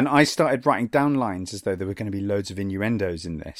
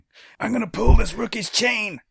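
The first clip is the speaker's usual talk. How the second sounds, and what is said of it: Imitates another person's voice. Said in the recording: “my Michael Rooker impression”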